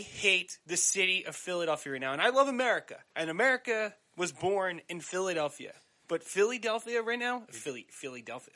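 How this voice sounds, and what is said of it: South Jersey accent. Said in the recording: “I said that like a moron ... showing my South Jersey accent”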